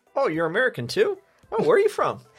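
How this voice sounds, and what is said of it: Slightly Canadian-sounding accent. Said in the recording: “you just sound a bit Canadian there.”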